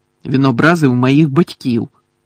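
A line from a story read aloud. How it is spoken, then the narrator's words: Grumble. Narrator (Ukrainian): буркнув Джордж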